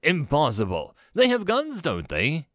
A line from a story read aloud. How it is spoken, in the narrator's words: Vakar snapped